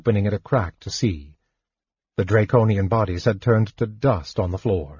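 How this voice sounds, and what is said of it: Usual voice. Nothing is said of it.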